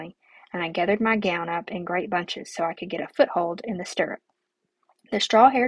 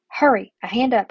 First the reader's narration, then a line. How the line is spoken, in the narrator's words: I snapped